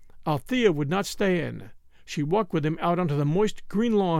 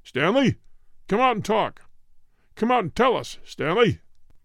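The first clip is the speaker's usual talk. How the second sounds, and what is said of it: Booming shouted voice. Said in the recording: “A radio voice boomed out of the bright blue sky. ... it shouted.”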